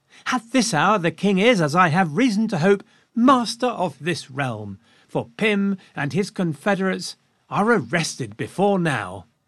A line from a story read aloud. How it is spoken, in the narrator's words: Henrietta Maria perked up, and she exclaimed to Lucy